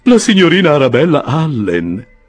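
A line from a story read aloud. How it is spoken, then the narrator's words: Exclaimed. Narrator (Italian): esclamò Mr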